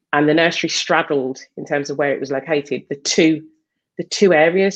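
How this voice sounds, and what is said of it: Birmingham Brummie accent. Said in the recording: “if people can't tell by my Brummy 0121 accent”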